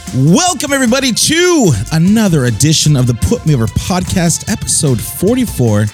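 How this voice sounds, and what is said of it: Hoarse, worn-out voice. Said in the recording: “My voice is a little gone. I screamed a lot on Sunday”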